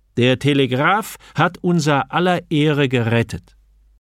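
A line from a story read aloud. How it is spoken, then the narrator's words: Piercing voice. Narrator (German): fügte am Schluss mit durchdringender Stimme hinzu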